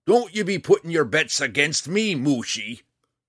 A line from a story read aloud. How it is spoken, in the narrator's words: roared back over his shoulder